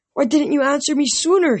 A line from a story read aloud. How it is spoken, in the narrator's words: he cried